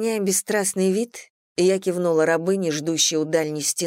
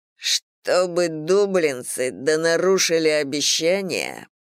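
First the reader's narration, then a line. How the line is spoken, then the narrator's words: Through gritted teeth. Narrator (Russian): процедил Тейк сквозь зубы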